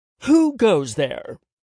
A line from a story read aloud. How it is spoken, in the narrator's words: Josh said dramatically